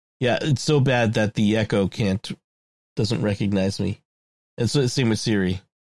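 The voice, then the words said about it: Sick, hoarse, under-the-weather voice. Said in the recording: “as you can hear from my voice ... I'm a little under the weather this week ... hacking and coughing ... sounding awful”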